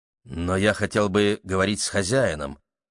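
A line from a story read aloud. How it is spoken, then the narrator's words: Mumbling. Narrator (Russian): пробормотал молодой человек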